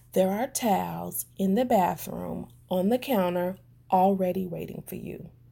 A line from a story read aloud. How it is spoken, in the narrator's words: I said to him softly